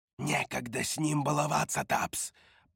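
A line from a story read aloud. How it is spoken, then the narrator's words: Whisper. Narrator (Russian): прошептала Роша костяное лицо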